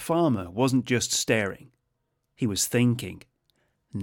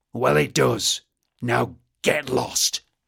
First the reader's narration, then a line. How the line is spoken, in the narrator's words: growled the boggart